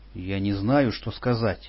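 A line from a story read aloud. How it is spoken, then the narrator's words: Timid speech. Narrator (Russian): робко проговорил я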